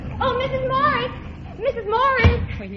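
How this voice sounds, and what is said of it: Breathless, out-of-breath calling. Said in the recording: “you're all out of breath”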